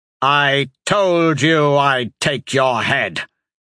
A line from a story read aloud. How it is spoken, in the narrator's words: spat as he collapsed to his knees